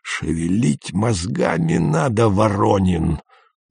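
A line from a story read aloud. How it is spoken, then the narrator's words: Wheezing, hoarse. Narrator (Russian): просипел он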